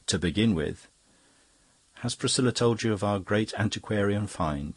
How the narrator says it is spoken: said Denis, smiling happily

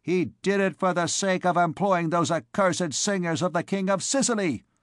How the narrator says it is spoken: cried an old woman sharply

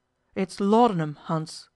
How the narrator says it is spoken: Aribert exclaimed, rather helplessly

